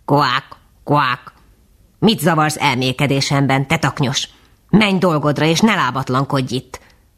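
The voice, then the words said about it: Rough, cracked croaking character voice. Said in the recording (Hungarian): “rozsdás repet fazék hangon megszólalt ... A goromba hangra”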